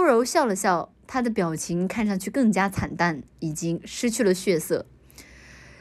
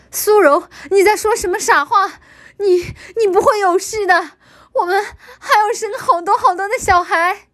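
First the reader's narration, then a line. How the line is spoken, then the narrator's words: Loud shout. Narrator (Chinese): 叶凡大叫道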